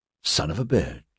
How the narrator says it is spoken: Wilson whispered

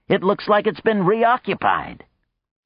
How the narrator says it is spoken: Coyote exclaimed

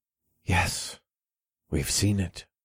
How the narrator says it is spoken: whispered

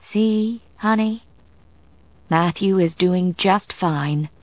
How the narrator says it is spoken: Sarah said, her voice soothing

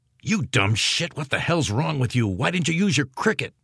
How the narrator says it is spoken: Christensen demanded in a fierce whisper

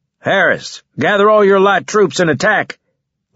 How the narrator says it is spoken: Leeson shouted

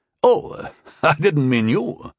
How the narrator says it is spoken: the Master War Mage laughed

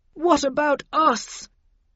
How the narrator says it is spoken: wailed Linton, coughing and on the verge of tears

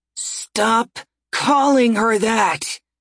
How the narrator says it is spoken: Ryoka snarled

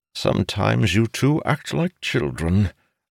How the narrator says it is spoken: Arunil sighed

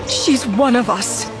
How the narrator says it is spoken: Siv begged

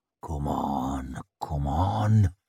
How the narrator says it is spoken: muttered the nail

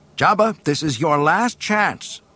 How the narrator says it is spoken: shouted Luke

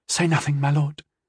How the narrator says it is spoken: she pleaded

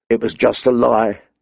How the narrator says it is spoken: said bitterly

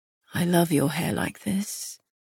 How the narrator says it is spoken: he murmured

